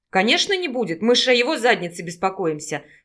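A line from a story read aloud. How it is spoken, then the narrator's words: Grumbling. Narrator (Russian): проворчала Наташа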